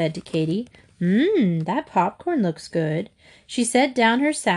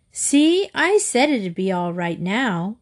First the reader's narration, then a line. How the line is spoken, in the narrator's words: Katie said happily